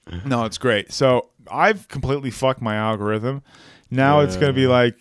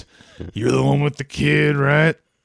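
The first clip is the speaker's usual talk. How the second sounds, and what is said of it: Gruff, rough voice. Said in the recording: “in a really gruff voice.”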